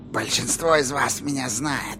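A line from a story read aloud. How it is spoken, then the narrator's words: Creaky voice. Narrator (Russian): проскрипела она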